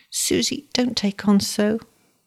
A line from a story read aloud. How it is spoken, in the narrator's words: whimpered the little man